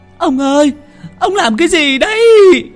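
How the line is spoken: Old woman wailing, sobbing. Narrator (Vietnamese): Bà Lý gào lên một tiếng, khóc nức nở

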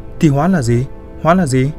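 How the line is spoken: Angry low mumble. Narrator (Vietnamese): Kiều chợt nhéo vào tai Việt, tức giận nói giọng lí nhí

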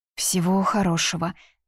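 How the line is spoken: Mumbling. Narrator (Russian): мямлю я

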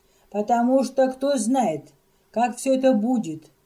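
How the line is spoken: Tearful exclamation. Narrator (Russian): воскликнула она, вытирая глаза, а глаза у нее всегда были на мокром месте

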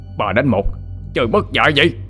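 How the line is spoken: Roar. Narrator (Vietnamese): Hắn ta gầm lên

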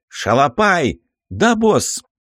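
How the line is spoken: Loud call. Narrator (Russian): громко позвал

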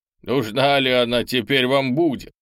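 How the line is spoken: Short laugh. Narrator (Russian): хохотнул начальник обоза

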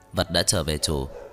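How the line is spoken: Flat even voice. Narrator (Vietnamese): Thần Phong nói với giọng đều đều

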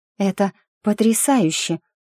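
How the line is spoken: Breathless, awed. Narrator (Russian): выдохнула я, с трепетом прижимая книгу к груди

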